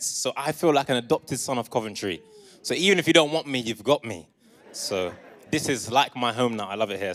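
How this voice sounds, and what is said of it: Southern English accent. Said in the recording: “if you can't tell from my accent, I am not from Coventry. I am actually from down south. I was raised in Essex and in London”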